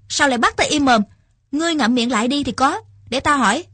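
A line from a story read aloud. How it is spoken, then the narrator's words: Shouting back. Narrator (Vietnamese): Nhậm Phi Yến cũng quát lại chồng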